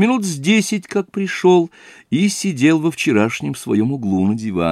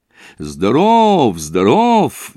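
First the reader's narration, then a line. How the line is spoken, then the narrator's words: Cheerful shout. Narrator (Russian): весело крикнул навстречу входящим Зосимов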